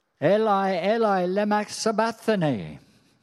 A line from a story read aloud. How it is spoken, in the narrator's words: Jesus cried out in a loud voice